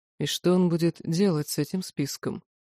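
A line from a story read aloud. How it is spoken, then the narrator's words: Deadly calm reply. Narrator (Russian): Элохар ответил убийственно спокойно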